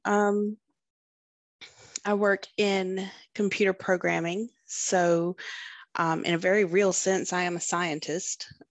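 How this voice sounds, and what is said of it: Southern US accent. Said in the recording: “I live in the South. You may or may not have picked up an accent. Pretty sure you probably did.”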